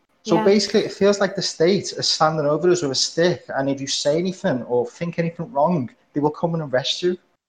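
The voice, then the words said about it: Liverpool English accent. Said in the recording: “Are you Scottish? ... Liverpool ... the Liverpool accent. It always confuses me. I always think you guys are Scottish.”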